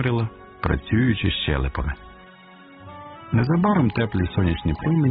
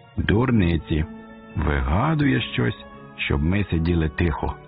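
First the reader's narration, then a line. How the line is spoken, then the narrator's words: Plain. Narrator (Ukrainian): відповіла подруга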